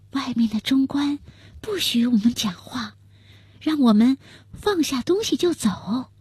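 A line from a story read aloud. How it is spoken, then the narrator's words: Quiet voice. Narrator (Chinese): 娟儿小声地说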